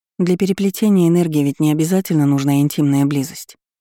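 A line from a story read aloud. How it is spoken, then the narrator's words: Calm remark. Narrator (Russian): заметила спокойно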